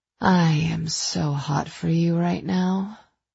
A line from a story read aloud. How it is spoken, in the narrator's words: I told him softly